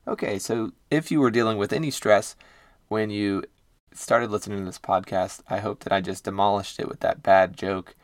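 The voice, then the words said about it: Hoarse voice. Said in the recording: “excuse my voice is a little hoarse. That's because I was doing some karaoke singing this past weekend, and yeah, that's why it sounds pony”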